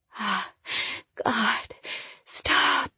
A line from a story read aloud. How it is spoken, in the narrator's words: I whispered